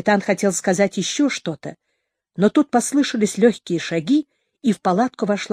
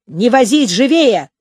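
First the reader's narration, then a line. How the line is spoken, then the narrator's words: Shouted. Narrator (Russian): крикнул комбат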